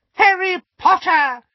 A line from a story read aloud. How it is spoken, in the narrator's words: squeaked an excited voice